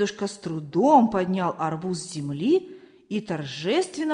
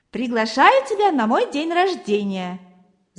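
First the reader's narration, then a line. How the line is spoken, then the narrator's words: Laughing. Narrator (Russian): засмеялся Валера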